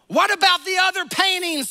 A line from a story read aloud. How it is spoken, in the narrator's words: someone yelled from the back